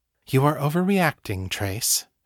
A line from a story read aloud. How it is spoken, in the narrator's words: she said evenly